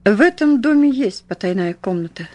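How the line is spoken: Calm. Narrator (Russian): спокойно проговорил он

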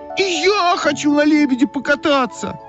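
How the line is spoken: Shouting. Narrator (Russian): закричала Ойка

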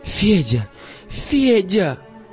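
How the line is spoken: Joyful shout. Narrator (Russian): радостно закричала Верочка

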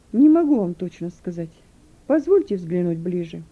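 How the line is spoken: Calm answer. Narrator (Russian): На этот раз Юн уже спокойно ответил

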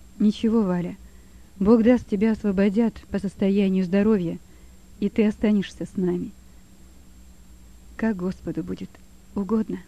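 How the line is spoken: Quiet. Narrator (Russian): говорила тихо Валя

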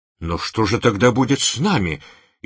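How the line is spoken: Frightened cry. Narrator (Russian): испуганно вскричал Бен Мерет

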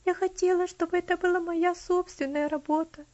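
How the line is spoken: Sobbing. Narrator (Russian): всхлипнула

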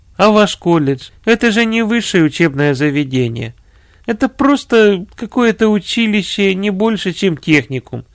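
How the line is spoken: Laughing. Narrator (Russian): смеясь, сказал комиссар

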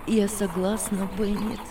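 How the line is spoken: Calm reply. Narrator (Russian): ответила Анна спокойно

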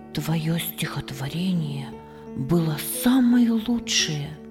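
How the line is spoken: Whispered. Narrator (Russian): шепнул он ей

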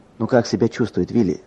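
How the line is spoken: Plain. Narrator (Russian): спросил я

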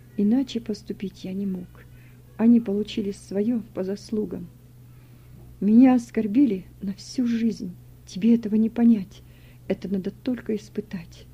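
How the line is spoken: Quiet, shaken. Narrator (Russian): Володя побледнел и тихо сказал

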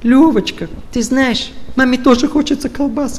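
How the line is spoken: Whiny mother's voice. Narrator (Russian): Подготовленная мама таким, знаете, плаксивым голосом

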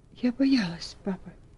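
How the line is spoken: Whispered. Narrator (Russian): прошептала

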